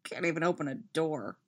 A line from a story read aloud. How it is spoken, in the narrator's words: he mutters